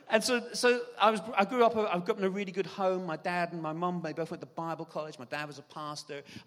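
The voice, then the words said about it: Irish accent. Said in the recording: “I don't know if you've heard my accent here, but I'm originally from Ireland.”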